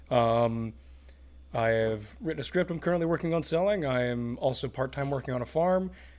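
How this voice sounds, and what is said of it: Sick-sounding voice. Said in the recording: “I'm also vaguely dying right now, so excuse the way my voice sounds.”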